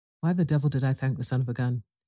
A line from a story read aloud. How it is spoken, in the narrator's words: He muttered